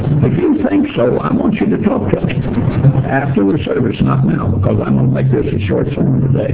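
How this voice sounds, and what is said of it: Weak, failing voice. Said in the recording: “I have been very sick, and I'm about to get over it. But my voice is going.”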